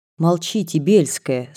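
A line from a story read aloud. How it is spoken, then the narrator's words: Stern. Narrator (Russian): строго остановила ее классная дама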